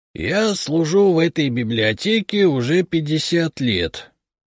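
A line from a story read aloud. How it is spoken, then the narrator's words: Dignified creaky voice. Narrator (Russian): с достоинством проскрипел он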